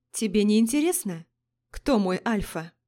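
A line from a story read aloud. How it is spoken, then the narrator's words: Calm question. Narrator (Russian): Спокойно спросила Лорея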